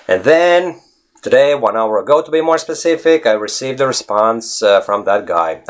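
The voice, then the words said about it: Non-native English accent. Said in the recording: “you have a special accent”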